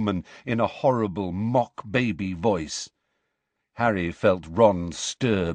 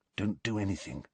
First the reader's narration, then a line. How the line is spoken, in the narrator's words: Harry muttered